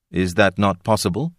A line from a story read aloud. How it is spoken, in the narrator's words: Kay asked calmly